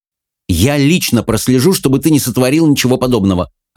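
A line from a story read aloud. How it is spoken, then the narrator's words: Snapping. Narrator (Russian): огрызнулась Мэлори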